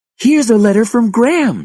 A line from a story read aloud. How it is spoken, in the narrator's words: cried